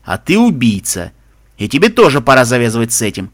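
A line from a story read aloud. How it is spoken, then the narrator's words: Snapping back. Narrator (Russian): огрызнулся Макгрегор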